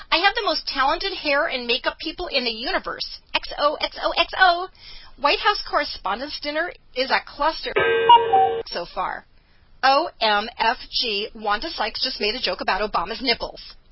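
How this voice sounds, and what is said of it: Impression of Laura Ingraham. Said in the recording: “my best Laura Ingraham impression”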